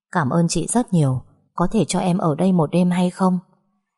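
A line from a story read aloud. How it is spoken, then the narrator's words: Soft gentle voice. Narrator (Vietnamese): cô gái đó mới nhỏ nhẹ nói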